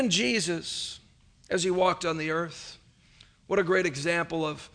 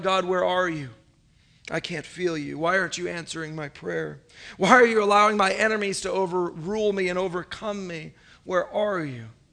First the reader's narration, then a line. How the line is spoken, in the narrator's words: David cries out